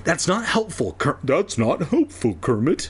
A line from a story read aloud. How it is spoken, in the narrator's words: Evan muttered unhappily